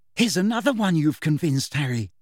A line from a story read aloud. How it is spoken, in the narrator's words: said Hermione excitedly